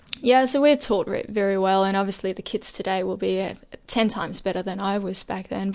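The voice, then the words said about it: Slight Danish accent in English. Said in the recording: “there's a slight accent... your English is almost perfect”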